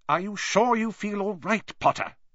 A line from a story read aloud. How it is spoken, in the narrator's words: said Professor McGonagall sharply